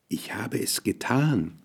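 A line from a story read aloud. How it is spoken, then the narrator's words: Quiet, pale with fear. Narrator (German): sagte leise und erbleichte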